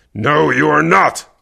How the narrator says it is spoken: Kervec growled

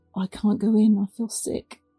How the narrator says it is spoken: muttered

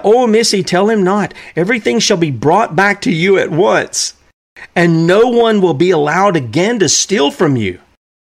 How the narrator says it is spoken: they cried out

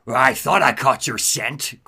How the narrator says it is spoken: Croc snarls

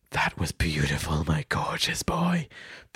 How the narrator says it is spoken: breathed Jürgen

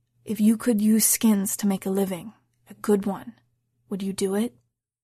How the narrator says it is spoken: he leaned down and whispered

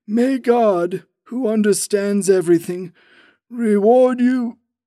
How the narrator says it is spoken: It broke off huskily

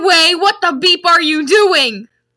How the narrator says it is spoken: Rumbridge shouted angrily

